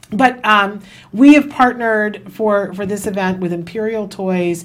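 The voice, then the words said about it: Hoarse, failing voice. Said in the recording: “I'm losing my voice”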